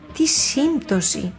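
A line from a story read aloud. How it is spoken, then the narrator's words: Grandmother exclaiming. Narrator (Greek): αναφώνησε η γιαγιά Φοφό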